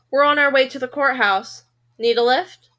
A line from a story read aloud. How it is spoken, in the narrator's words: ask dryly